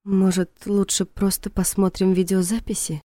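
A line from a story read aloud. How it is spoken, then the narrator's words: Timid, barely audible female. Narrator (Russian): Робко, почти неслышно предложила она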